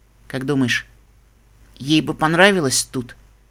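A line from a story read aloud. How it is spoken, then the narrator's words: Quiet question. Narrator (Russian): тихо спросила Сансет Шиммер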